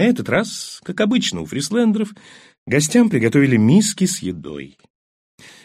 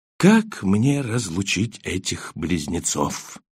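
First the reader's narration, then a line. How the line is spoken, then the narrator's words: Quiet question. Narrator (Russian): тихо спросил группенфюрер Таненбаум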